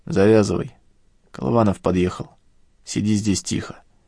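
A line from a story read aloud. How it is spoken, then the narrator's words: Quiet. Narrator (Russian): Арик тихо сказал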